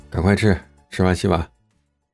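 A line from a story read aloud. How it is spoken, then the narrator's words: Cold. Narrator (Chinese): 冷冷的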